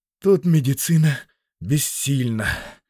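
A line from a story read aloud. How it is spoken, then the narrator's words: Breathed out. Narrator (Russian): выдохнул он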